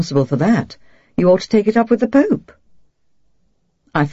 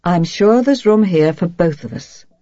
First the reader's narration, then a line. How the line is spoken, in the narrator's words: she says evenly